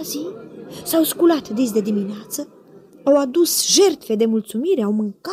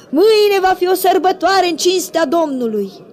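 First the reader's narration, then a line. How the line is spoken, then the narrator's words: Shouted. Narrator (Romanian): au strigat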